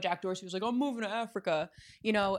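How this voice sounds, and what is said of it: Imitates another person's voice. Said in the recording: “your Jack Dorsey impersonation”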